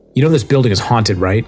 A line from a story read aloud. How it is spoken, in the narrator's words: Heather remarked sharply